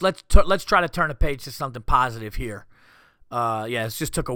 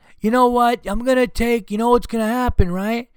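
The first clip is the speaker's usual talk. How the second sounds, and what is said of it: Yelling, angry parent voice. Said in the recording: “I'm yelling.”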